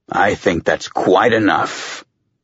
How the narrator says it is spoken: Mendez growled

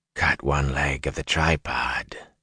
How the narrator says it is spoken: said softly

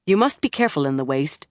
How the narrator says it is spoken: she added in a practical tone

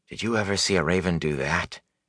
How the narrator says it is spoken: He asked quietly

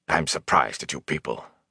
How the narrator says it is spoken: Bran rumbled

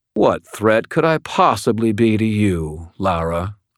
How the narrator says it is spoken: drawled

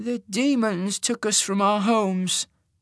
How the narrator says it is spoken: he said, his voice trembling

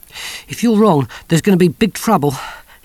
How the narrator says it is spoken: panted

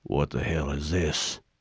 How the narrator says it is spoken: Sergeant Johnson muttered

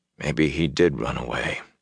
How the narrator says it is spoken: he muttered

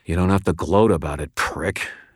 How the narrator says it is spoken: I muttered under my breath

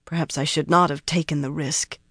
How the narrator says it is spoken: she muttered

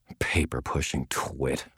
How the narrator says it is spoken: muttered under my breath

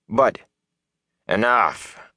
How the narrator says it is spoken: Elias growled, cutting Perrin off

